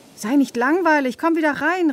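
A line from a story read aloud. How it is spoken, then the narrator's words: Girl calling out. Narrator (German): rief das Mädchen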